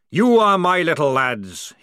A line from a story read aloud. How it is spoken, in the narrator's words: roared